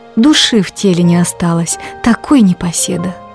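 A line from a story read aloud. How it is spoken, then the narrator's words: Sighed. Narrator (Russian): вздохнула она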